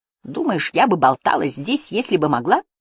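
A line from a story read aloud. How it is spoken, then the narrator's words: Irritated reply. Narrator (Russian): раздраженно ответила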